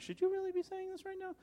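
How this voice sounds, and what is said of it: High-pitched voice. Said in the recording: “High voice all day. ... High voice, stop. Deep, confident voice.”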